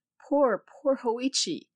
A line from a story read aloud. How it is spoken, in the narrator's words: the priest exclaimed